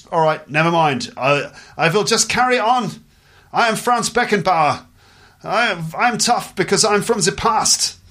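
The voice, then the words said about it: Put-on German accent. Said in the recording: “this is a German accent.”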